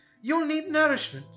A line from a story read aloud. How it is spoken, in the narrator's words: she cried